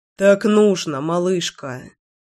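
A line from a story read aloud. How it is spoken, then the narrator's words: Stubborn mutter. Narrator (Russian): упрямо пробормотал Славик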